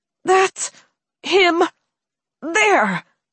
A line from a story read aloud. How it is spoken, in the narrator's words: she said through clenched teeth